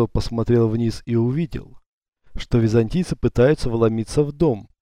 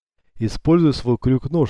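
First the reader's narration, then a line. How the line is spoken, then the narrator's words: Plain. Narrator (Russian): сказал Юсуф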